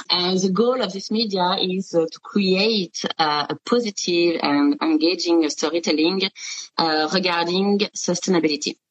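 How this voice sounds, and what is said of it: French-accented English. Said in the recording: “sorry for my English with a French accent for sure”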